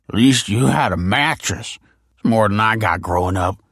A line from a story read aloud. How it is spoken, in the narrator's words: he slurred